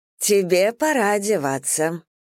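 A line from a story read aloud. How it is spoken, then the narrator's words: Cheerful speech. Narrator (Russian): проговорила она весело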